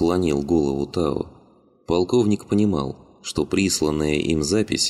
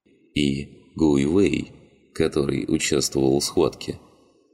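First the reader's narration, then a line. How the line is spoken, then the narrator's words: Soft. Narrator (Russian): мягко закончил Ляо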